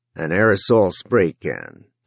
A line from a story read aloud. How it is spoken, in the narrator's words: Don Denny said dryly